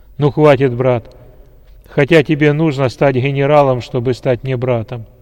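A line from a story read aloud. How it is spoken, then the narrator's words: Loud general. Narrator (Russian): громко сказал генерал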